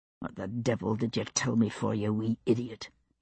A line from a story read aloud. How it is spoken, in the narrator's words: he said under his breath